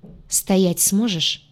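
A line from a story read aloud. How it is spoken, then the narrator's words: Man's quiet question after pause. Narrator (Russian): тихо спросил мужчина после короткой паузы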